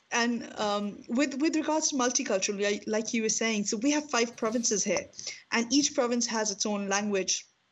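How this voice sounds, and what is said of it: Strong Pakistani accent. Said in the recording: “I have a very, very strong Pakistani accent.”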